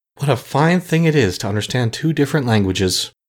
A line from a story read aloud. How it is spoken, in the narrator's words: he said with a perplexed sigh